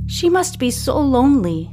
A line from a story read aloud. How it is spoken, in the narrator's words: sighs, experiencing a sudden pang of empathy